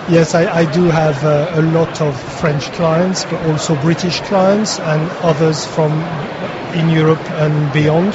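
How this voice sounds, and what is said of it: Slight French or Belgian accent. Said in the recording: “you have a slight accent that would indicate that you're French or Belgian”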